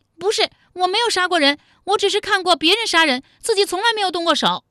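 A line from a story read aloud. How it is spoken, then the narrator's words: Shrieking. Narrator (Chinese): 武灵觉尖叫道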